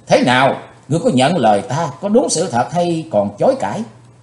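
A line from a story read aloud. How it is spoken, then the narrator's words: Loud shout. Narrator (Vietnamese): Hắc Phượng Hoàng đã hét lớn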